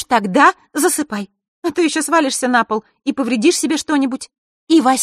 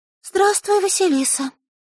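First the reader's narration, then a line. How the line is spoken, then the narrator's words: Timid girl. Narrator (Russian): робко сказала девочка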